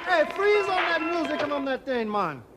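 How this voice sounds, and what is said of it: Bad put-on Jamaican accent. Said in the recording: “he does a really bad Jamaican accent.”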